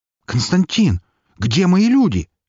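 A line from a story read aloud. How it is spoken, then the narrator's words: Sudden cry. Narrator (Russian): вскрикнул Филатов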